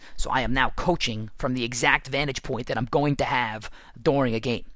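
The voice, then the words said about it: Raspy, worn-out voice. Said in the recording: “losing my voice ... I'm losing my voice a little bit from doing all this screaming ... that's why my voice is raspy”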